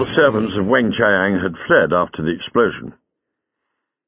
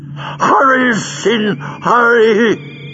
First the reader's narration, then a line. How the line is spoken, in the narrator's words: he croaked